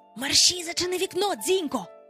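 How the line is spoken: Whispered. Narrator (Ukrainian): прошепотів

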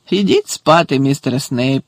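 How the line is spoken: Laughing. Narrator (Ukrainian): засміявся Муді

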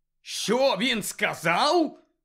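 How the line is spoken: Barked. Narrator (Ukrainian): гаркнув Сіріус

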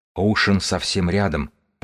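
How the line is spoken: Whispered. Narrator (Russian): прошептал книжник

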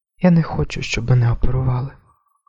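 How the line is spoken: Whisper. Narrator (Ukrainian): прошепотіла вона

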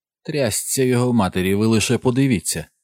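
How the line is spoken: Exclaimed. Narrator (Ukrainian): вигукнув Біллі Марчант

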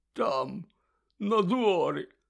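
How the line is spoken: Hoarse rasp. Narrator (Ukrainian): прохрипів Гегрід

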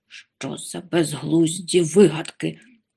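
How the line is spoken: Strained grumble. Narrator (Ukrainian): буркнув він, з натугою відсуваючи канапу

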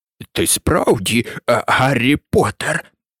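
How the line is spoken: Old man whispering. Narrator (Ukrainian): прошепотів старий

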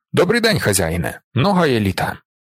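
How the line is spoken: Abrupt voice. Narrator (Ukrainian): Зорбасів голос різко

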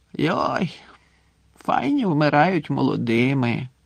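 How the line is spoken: Drunken mumble. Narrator (Ukrainian): бурмотів захмлілий Гегрід

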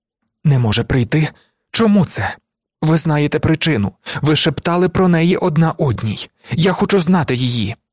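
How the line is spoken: Commanding, desperate exclamation. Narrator (Ukrainian): Фантіна, владним і разом з тим розпачливим голосом вигукнула

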